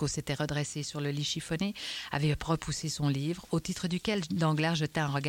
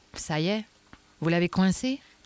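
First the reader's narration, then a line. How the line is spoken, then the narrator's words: Plain. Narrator (French): demanda-t-il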